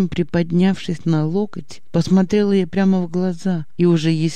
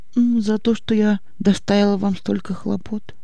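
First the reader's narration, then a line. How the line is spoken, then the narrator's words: Quiet. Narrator (Russian): тихо сказала Аня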